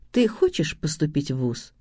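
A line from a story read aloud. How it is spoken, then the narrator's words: Calm question. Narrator (Russian): спокойно спросила у Миши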